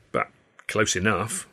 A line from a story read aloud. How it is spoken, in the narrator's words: Stan said miserably